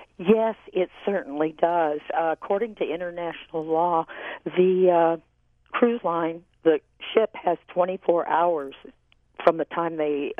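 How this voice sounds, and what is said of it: Congested voice from a cold. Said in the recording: “You're a little under the weather with a cold. ... apologize for my voice. I hope you can understand me.”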